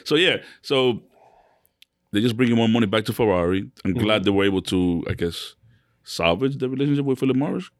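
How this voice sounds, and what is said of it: Speaks English with a foreign accent. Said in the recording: “Se acento tuyo... It's the accent.”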